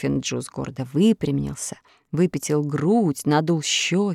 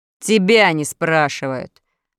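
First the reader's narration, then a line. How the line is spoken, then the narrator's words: Barking snap. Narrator (Russian): рявкнул Урфин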